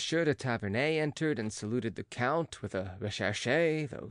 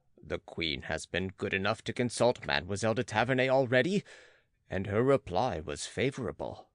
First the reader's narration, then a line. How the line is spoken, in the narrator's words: interrupted the Count rather coldly